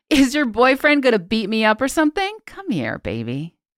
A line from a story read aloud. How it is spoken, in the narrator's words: Unfazed by my statement, he laughed and continued